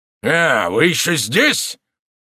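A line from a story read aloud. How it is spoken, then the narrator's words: Angry shout. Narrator (Russian): солдат опять рассердился и крикнул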